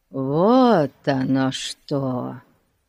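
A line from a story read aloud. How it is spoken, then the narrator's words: Drawn-out drawl. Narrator (Russian): протянул Фати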